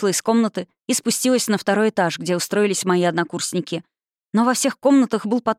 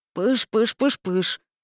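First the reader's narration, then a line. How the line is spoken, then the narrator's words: Agreeing spirit mumble. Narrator (Russian): согласно забормотал дух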